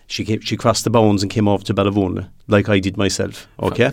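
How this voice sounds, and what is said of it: Slight Kerry Irish accent. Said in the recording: “There's a slight touch of a Kerry accent there, right? ... A slight touch, yeah.”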